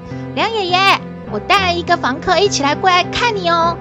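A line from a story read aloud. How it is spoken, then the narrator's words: Calling out. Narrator (Chinese): 少年喊着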